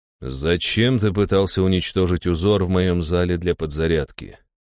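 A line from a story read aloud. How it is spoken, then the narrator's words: Cold interruption. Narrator (Russian): холодным голосом перебил его я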